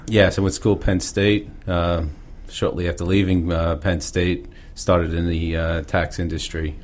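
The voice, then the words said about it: New York Pennsylvania blended accent. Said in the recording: “New York, Long Island, as you probably can tell by my accent. ... a little bit from Boston, too, in there. ... a blended New York-Pennsylvania accent.”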